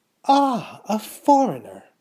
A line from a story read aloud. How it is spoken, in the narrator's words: cried Mrs